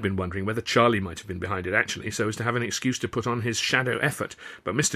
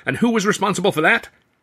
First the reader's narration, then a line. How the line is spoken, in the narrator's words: Considine growled